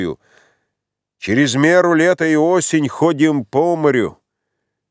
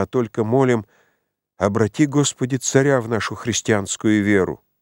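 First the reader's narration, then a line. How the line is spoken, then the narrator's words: Quiet, as if to herself. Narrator (Russian): проговорила она тихо, точно про себя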